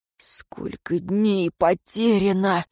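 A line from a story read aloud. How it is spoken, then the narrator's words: Whispered. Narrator (Russian): прошептал Шамис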